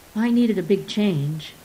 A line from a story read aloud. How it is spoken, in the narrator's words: he said